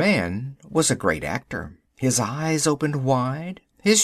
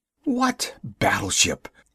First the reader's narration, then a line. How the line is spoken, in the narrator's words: he gasped